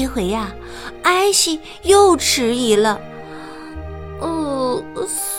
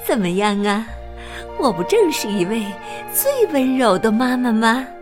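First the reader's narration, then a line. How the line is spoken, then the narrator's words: Smiling mother asking. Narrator (Chinese): 这位妈妈满面笑容的问道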